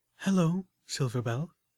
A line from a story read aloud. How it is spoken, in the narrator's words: Velvet Remedy said gently